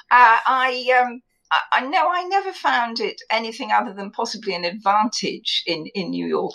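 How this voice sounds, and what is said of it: English accent. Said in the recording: “anybody with an English accent”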